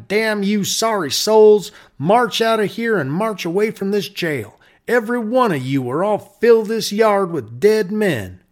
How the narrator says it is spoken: he shouted

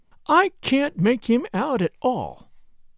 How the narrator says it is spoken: she said in an aggrieved voice

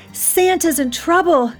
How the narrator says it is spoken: she cried

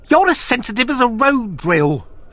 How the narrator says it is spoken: she screeched and wept

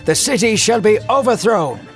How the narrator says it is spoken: he yelled for all to hear

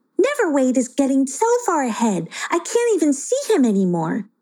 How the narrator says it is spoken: exclaimed Playalina

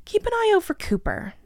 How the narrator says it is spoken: grumbled

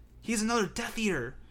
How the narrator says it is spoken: breathed Griphook

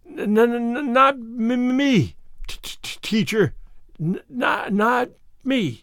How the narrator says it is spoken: Joe Sloane stuttered out wildly

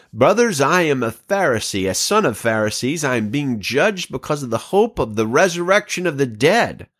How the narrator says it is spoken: he cried out in the Sanhedrin

